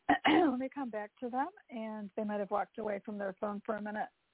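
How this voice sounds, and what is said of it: Strained, failing voice. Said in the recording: “Oh, I'm losing my voice.”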